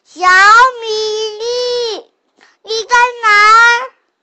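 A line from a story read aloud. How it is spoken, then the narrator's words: Parents calling out. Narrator (Chinese): 爸爸妈妈再次呼喊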